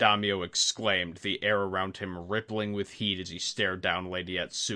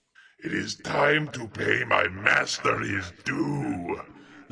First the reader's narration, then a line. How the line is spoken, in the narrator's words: the monster roared in Lady Atsuko's shrill voice